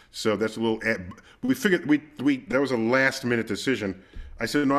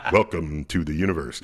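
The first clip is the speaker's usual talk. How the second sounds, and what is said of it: Planetarium narrator voice. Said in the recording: “I put in my best planetarium voice... my planetarium voice carries you through the book”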